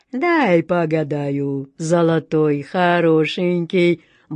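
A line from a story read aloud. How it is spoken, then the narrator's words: Deep-voiced woman. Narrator (Russian): басом сказала гадалка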